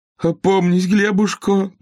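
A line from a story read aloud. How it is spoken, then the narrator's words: Pleading. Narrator (Russian): взмолилась жена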